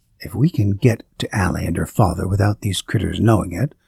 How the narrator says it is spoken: I whispered into his ear

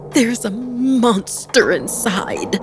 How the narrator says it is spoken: crying wildly

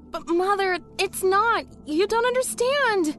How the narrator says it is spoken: she pleaded

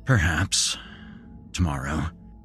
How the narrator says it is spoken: he murmured

